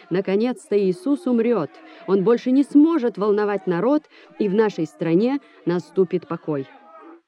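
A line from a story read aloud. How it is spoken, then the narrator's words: Joyful crowd shouting. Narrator (Russian): Толпа радостно закричала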